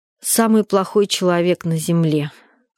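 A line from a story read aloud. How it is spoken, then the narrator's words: Tired. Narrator (Russian): ответила я устало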